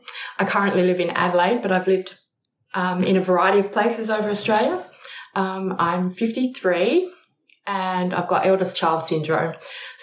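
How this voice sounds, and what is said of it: Australian accent. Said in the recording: “I'm Australian. You can probably tell that by the accent.”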